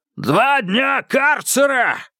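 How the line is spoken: Hoarse yell. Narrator (Russian): хрипло заорал старший воспитатель Броль

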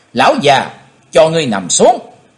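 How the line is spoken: Loud shout. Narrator (Vietnamese): chàng hét to lên

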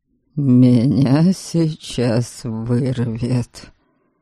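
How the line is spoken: Nauseated mutter. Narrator (Russian): пробормотал Дориан, ощутимо позеленев

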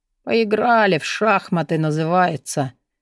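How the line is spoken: Gruff mutter. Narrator (Russian): буркнул

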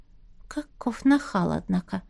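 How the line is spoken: Whispered. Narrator (Russian): шепнула Настя

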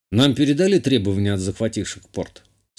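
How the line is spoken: Plain. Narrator (Russian): спросил я

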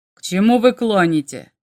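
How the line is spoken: Barked. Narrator (Russian): рявкнул Волхом

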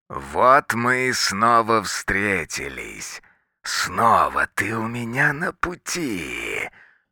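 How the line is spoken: Mechanical menacing voice. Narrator (Russian): механическим и каким-то устрашающим голосом говорит андроид

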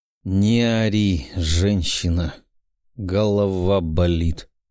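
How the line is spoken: Hiss. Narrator (Russian): прошипел парень

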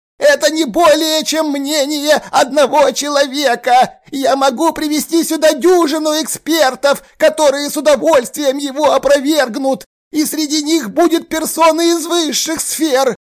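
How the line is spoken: Wild frenzied yell. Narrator (Russian): заорал дурным голосом

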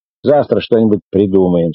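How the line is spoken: Plain. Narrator (Russian): сказала Муся

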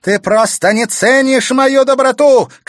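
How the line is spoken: Shouted. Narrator (Russian): крикнула Клементина

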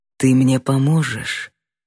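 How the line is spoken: Sweet whisper. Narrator (Russian): Как же сладко шепот ударил в ухо

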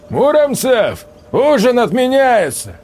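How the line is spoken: Shouted. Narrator (Russian): крикнул Сальников в сторону беседки

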